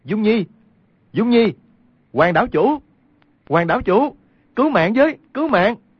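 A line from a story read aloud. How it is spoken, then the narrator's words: Loud desperate calling. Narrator (Vietnamese): cao giọng kêu lên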